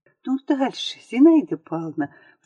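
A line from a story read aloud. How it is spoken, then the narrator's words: Excited whisper. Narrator (Russian): взволнованным шепотом проговорила Лиза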